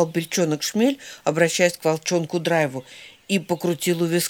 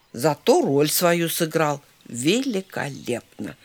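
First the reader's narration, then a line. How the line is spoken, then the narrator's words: Calm. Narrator (Russian): спокойно ответил Драйв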